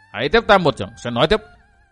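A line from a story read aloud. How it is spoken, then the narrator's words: Youth's sudden stern shout. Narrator (Vietnamese): Thiếu niên thanh y bỗng nặng giọng quát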